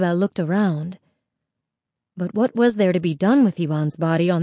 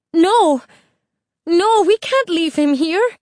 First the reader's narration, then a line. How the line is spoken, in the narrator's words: Isabel cried